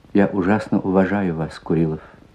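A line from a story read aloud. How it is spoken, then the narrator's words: Quiet speech. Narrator (Russian): тихо сказала она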